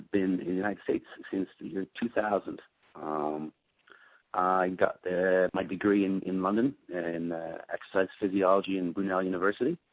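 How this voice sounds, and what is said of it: Slight Irish accent. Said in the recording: “we hear a little bit of an accent there”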